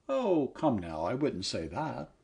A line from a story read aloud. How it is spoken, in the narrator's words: said the kindly voice